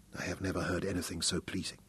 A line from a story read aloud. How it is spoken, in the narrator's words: Hal whispered